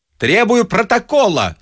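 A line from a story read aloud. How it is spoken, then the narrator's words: Grandiloquent shout. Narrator (Russian): с пафосом закричал Остап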